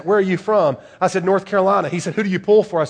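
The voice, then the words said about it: Southern American accent. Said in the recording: “you have a southern accent.”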